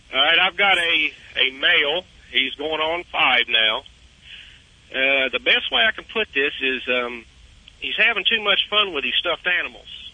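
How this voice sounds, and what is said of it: Southern drawl. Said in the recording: “You have that southern drawl there”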